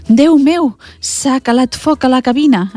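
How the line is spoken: Alarmed old man exclaiming. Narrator (Catalan): exclama el padrí

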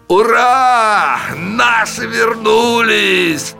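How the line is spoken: Loud booming shout. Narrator (Russian): Зычно крикнул вслед офицерам один из них

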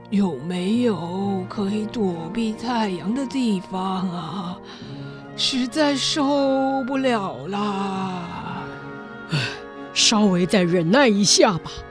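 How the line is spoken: Slow weary drawl. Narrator (Chinese): 一向最能忍耐的亨利男爵也慢吞吞地说

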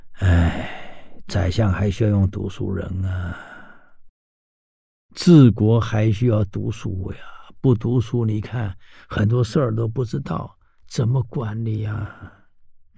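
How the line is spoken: Long sigh. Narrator (Chinese): 太祖长叹了一声

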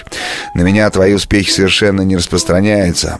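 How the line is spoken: Embarrassed chuckle. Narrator (Russian): Бакстер смущенно хохотнул

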